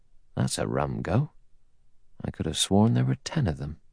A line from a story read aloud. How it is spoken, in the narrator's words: He muttered to himself